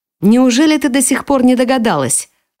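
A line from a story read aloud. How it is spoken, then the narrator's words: Scoffing snort. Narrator (Russian): фыркнула она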